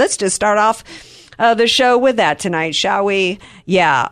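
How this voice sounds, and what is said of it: Usual voice. Nothing is said of it.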